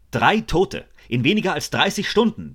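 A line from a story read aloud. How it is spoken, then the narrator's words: Roaring. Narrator (German): brüllte er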